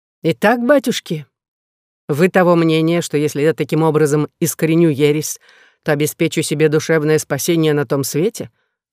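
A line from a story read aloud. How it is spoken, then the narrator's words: Plain. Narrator (Russian): спросил Людовик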